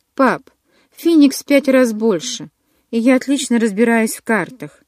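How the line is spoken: Sigh. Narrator (Russian): вздохнула

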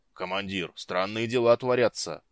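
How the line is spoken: Deep bass voice. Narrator (Russian): пробасил Глук

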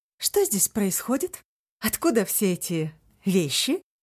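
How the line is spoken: Plain. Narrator (Russian): спросила она

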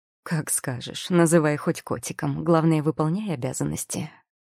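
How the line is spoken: Mocking male tone. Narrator (Russian): произнес он насмешливым тоном

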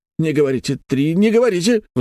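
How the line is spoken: Pleading. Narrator (Russian): взмолился ответственный за это направление

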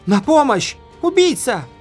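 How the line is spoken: Screaming woman. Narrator (Russian): заорала она

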